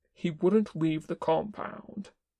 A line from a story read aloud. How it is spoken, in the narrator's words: Kin said firmly